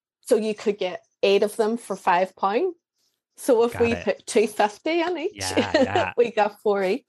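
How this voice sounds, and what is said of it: Northern Irish Derry accent. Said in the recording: “you are in Northern Ireland ... I'm a Derry girl, an original Derry girl ... I'm obsessed with your accent”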